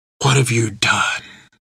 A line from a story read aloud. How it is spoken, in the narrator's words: whispered Hilda